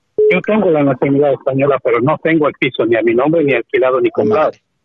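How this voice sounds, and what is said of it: Bolivian or Ecuadorian Spanish accent. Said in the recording (Spanish): “Por tu acento infiero que eres de Bolivia o eres de Ecuador”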